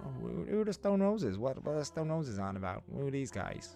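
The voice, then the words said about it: Put-on American accent. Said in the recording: “Good American accent”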